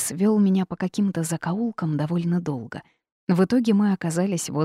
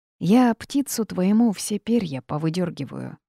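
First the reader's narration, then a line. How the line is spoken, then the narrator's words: Sigh. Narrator (Russian): вздохнул Джейс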